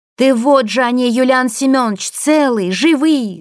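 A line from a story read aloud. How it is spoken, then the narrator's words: Shouting. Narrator (Russian): закричала она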